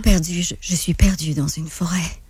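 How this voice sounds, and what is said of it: Deeper, breathier dubbing voice. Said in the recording (French): “Dakota, c'est pas mal la même voix, mais Dakota, je te dirais qu'elle est plus deep, il y a plus d'air dedans.”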